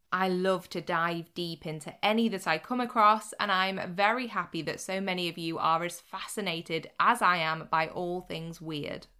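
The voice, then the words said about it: Slightly odd, sick-sounding voice. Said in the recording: “my voice sounds a little odd ... fend off some kind of cold or virus”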